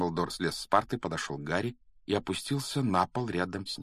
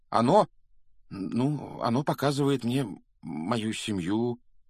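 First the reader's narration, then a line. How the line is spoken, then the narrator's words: Uncertain, hesitant. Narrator (Russian): неуверенно начал Гарри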